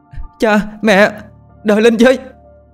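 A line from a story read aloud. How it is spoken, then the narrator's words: Shouting. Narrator (Vietnamese): hét lên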